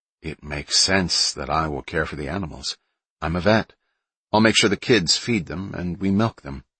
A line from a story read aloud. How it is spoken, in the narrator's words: Kelly said